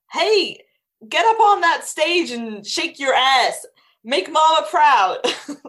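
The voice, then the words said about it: Texas pageant mom accent impression. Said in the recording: “one of those like kind of big Texas ladies that puts their kids in the pageants ... one of those big Texas ladies. What does that sound like? ... do an impression”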